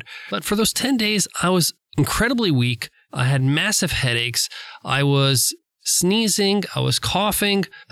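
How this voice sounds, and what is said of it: Congested voice from a cold. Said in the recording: “one of the worst sinus and colds ... you probably could still hear it in my voice. I'm still not fully recovered”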